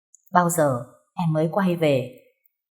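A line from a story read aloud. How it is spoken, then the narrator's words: Soft sigh. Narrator (Vietnamese): Cô gái kia khẽ thở dài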